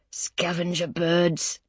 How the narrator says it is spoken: Grandad mutters

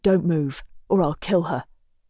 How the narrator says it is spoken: the man growls

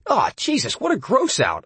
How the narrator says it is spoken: I cried

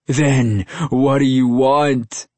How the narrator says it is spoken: Maxwell cried

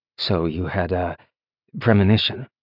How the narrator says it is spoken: Lyndon asked, keeping his voice low

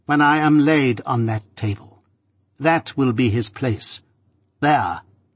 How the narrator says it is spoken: said Miss Havisham sternly

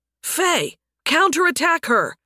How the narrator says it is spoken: Nathan shouted

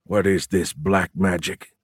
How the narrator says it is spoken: he muttered

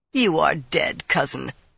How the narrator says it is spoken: Toram sneered

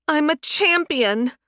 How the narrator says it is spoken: Faye whined

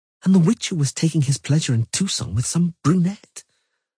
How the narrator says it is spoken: she murmured

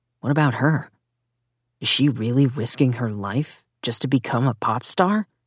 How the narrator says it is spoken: Zack whispered

